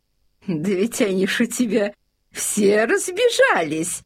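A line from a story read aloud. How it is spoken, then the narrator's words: Laughing. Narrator (Russian): засмеялась фрейлина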